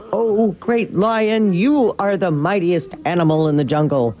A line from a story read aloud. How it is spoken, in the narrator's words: The terrified ox stammers